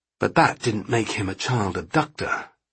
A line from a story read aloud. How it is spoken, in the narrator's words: Sparks said miserably to his sergeant